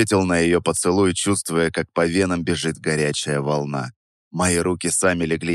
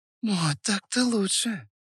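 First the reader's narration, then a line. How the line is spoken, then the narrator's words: Purring woman. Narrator (Russian): промурлыкала она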